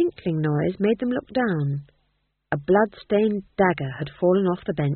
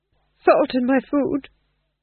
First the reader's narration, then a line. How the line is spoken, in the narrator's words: said the Duke nervously